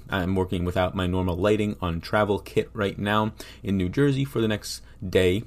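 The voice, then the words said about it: Worn voice, losing it. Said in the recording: “maybe my personal voice losing my voice”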